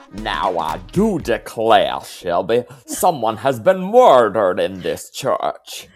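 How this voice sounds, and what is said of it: Benoit Blanc Southern accent impression. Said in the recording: “Hey, that was pretty good. ... my accents are always top notch ... Benoit Blanc.”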